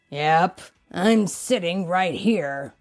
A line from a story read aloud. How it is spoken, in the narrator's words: Sam grumbled